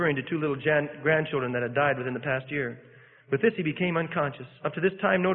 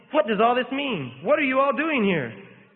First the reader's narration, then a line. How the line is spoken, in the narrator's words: suddenly raising himself on his elbow, he exclaimed